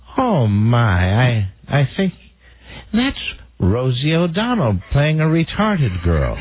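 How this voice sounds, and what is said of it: Old lady voice. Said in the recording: “Do your old lady voice.”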